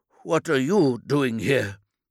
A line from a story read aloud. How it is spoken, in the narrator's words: asked, slurring the question